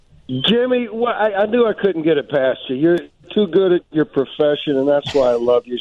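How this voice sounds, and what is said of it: Southern drawl, nasal voice. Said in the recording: “you always sound like you got a sinus infection ... that southern drawl ... that southern drawl”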